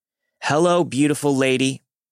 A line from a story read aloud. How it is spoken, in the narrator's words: He again shouted